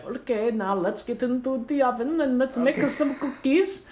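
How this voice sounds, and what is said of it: Put-on German-sounding accent. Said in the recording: “I don't know if that's a German accent.”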